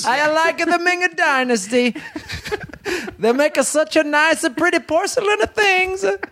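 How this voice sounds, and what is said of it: Put-on Chinese accent. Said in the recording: “you want to hear my Chinese impression?”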